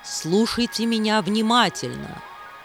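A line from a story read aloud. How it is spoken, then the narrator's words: Stern. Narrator (Russian): строго сказала Ягини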